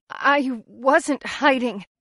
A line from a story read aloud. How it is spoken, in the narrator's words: retorts, but her voice trembles